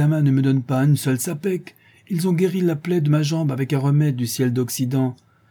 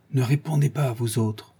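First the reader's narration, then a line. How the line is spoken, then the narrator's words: Boatman's whisper. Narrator (French): nous dit tout bas le batelier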